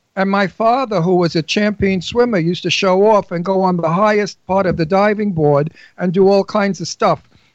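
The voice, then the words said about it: Brooklyn New York accent. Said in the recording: “I have my accent. You know, people say you have such a New York accent. I say, no, it's Brooklyn.”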